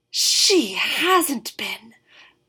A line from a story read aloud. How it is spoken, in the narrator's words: Enin whispered